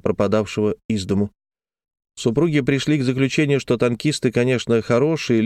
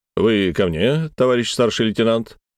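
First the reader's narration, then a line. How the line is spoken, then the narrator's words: Confident low bass. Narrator (Russian): солидным самоуверенным баском спросил он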